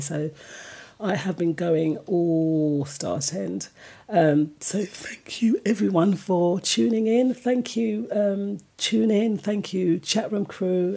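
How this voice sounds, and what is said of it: Tired, worn-out voice. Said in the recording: “my voice is very tired”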